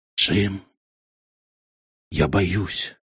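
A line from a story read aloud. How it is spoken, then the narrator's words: Whisper. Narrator (Russian): прошептала она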